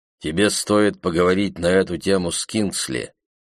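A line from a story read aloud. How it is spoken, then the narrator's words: Plain. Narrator (Russian): сказал Билл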